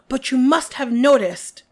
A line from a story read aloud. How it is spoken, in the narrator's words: Karkaroff began in an agitated voice